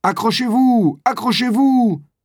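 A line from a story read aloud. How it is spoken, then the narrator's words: Shouting again. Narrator (French): crie à nouveau Brillant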